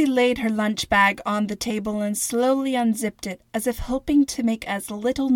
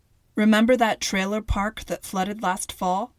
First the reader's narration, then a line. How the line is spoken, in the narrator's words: Xavier said